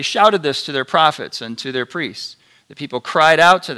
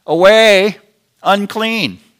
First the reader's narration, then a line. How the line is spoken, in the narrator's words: started to shout like you would shout to lepers